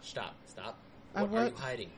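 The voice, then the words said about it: Yelling. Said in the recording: “Why are you yelling at me? Why are you yelling at”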